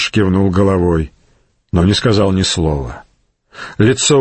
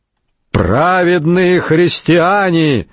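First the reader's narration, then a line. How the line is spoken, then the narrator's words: Shout. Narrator (Russian): закричал он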